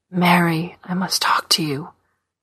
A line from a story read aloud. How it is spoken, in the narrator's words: he said to her mother, whispering